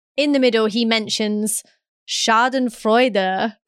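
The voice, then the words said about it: Put-on German accent. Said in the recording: “That was my German accent”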